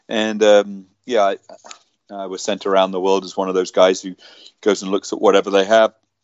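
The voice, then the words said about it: British accent. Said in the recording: “You can obviously hear I got a British”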